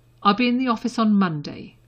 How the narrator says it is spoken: Harry said firmly

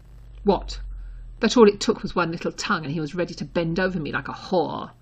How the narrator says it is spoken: Draco snapped viciously, loud enough to be overheard

